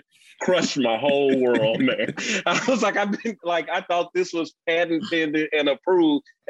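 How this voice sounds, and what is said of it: Mississippi Southern accent, fast speech. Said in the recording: “you sound like you're still from Mississippi. You're just talking faster... You still sound like you're from Mississippi.”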